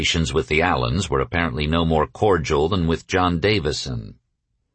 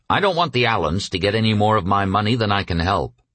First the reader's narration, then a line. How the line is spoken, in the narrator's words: Bill snapped